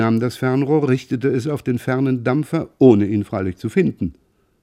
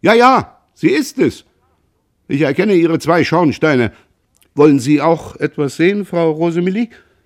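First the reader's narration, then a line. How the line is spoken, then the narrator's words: Delighted call. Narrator (German): rief erfreut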